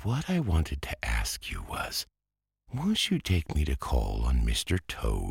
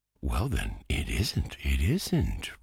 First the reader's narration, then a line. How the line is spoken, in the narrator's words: replied the mole soothingly